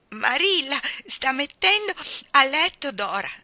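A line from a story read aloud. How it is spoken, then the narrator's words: Sobbing. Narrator (Italian): singhiozzò Davy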